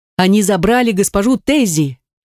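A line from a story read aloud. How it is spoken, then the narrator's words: Breathless shout. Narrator (Russian): Замедляя бег, подручный закричал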